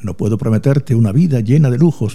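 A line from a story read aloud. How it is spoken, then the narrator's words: Plain. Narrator (Spanish): dijo Adrián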